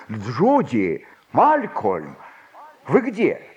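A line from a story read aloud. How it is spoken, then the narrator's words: Shouting. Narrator (Russian): он крикнул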